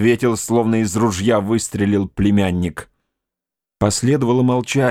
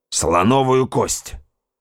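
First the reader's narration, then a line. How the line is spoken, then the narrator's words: Curt, clipped. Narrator (Russian): отрывисто бросил племянник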